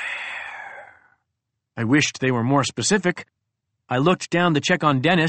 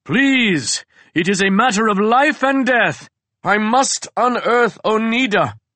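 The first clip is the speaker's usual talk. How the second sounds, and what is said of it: Melodramatic soap opera accent. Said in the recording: “donning a bit of an accent this time, a little soap opera flair to my delivery”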